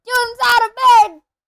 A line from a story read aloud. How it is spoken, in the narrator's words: Peeves bellowed